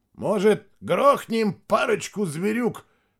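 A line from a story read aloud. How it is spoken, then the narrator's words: Shouting. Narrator (Russian): крикнул Мирадзе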